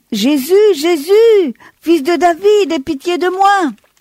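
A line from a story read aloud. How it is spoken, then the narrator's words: Shouting even louder. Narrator (French): il crie encore plus fort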